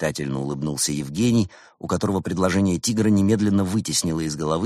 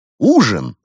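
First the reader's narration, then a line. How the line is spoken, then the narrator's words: Cheerful exclamation. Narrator (Russian): воскликнул Константин, забыв об обиде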